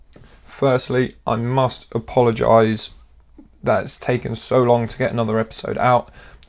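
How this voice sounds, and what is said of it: Slightly raspy voice. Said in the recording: “my slightly raspy voice, I have been struggling to use my words and to get any sort of noise out”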